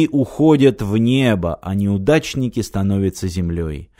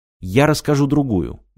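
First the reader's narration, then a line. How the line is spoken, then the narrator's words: Quick. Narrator (Russian): быстро сказал Мартин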